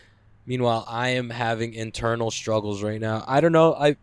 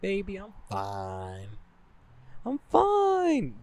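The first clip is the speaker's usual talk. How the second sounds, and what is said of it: Raised high-pitched voice. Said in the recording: “Do my little high voice because I know I'm lying”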